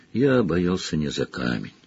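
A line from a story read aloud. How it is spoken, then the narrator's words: Gentle correction. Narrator (Russian): мягко поправил его Дамблдор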